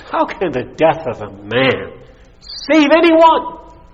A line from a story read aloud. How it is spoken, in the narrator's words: one of the students asked a sneer with a sneer in his voice